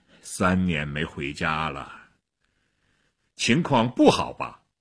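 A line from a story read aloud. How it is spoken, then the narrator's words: Sighing. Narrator (Chinese): 薛特林叹了口气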